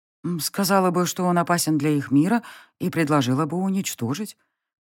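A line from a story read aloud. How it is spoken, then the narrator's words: Uncertain. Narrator (Russian): произнесла я неуверенно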